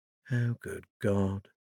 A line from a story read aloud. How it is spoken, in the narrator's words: Louisa muttered